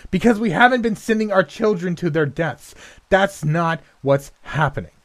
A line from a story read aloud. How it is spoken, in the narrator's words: shouted in her face